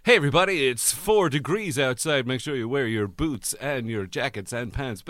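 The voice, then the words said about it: Upbeat morning radio presenter voice. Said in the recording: “This is my new radio voice... It's a sort of morning radio voice to wake people up.”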